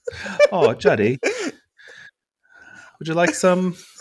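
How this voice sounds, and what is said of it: Bad put-on British accent. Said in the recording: “our best British accents on here. My British accent's so bad.”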